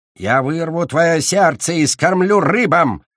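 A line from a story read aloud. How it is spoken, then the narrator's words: Growling threat. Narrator (Russian): рычал Ледяной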